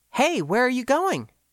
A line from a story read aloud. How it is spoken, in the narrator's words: asked brightly